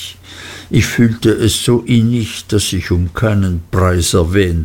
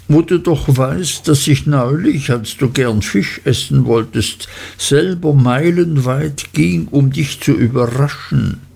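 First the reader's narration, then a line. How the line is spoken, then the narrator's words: Sobbing. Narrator (German): schluchzte Dora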